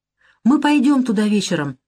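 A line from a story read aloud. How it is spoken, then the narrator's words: Happy. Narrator (Russian): радостно говорит она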